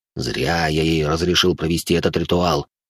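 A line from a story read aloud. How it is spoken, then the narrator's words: Grumbled under breath. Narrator (Russian): Буркнул он про себя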